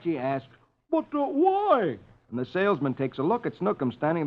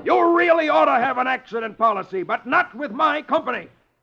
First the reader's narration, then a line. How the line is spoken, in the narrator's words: He yells back at Archie